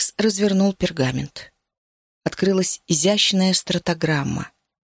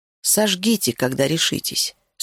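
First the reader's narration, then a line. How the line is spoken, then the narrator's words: Plain. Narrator (Russian): сказал он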